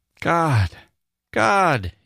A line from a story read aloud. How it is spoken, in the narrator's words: he kept exclaiming